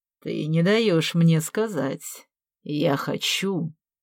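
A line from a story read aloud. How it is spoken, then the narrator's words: Slow, unctuous voice, professor. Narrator (Russian): медленно, елейным голосом заговорил профессор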